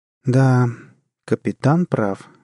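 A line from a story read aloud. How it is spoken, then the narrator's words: Gloomy confirmation. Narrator (Russian): мрачно подтвердила Джанет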